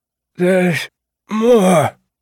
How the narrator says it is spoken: Percy said in his rough, dying voice

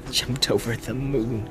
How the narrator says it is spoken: chuckled Merry

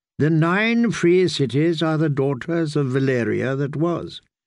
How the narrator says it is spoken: the kindly man taught her

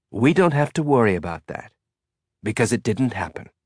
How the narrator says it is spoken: Reeves said in a carefully reassuring tone of voice that meant you'd be dead

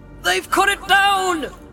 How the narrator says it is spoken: cried Sam

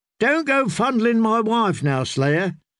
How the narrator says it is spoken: said Darien, laughing

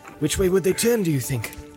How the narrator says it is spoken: said Legolas

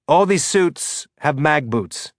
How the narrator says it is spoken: he said

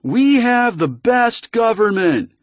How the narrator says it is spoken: she shouted with her gravelly punk singer voice, making each word good and clear and loud

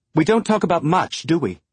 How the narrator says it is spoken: she snapped, the bite in her voice

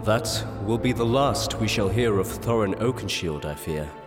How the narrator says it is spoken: said the King

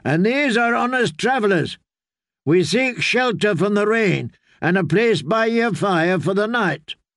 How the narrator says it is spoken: Marybold had shouted up

